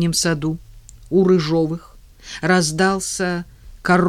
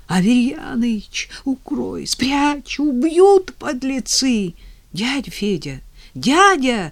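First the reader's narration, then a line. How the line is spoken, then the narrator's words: Hoarse, exhausted, breathless pleading. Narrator (Russian): тяжело бежал, спотыкался, падал, вновь вставал и на ходу хрипло, измученно просил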